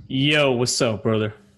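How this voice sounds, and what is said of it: Deep put-on greeting voice. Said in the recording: “Why is that your go-to voice? ... Was it deep? Did it sound deep in your ears? ... it doesn't sound like you. It sounds like another person.”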